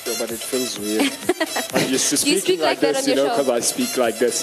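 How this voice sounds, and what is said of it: European DJ-style talk show accent. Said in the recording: “can you drop Europe. The whole DJ? Like, just speak normal. ... This is the accent for the talk show.”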